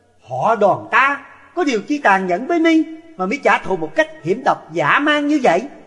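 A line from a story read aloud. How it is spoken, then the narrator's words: Furious scream. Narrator (Vietnamese): Đoàn Dự căm tức đến cực điểm, thét lên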